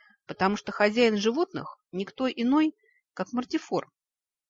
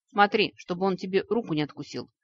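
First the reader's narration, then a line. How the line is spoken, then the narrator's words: Gloomy warning. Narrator (Russian): мрачно предостерег Нори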